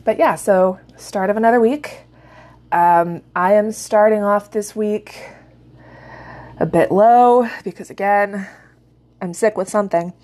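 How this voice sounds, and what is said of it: Hoarse, sick-sounding voice. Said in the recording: “any hoarseness or coughing that happens during this episode. I either have a chest cold or I am coming down with corona”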